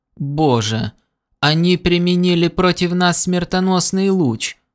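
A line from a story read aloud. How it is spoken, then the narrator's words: Moaning, finally finding voice. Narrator (Russian): простонал мэр, обретя наконец дар речи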